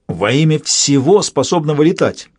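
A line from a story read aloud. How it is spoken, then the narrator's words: Barked. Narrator (Russian): рявкнула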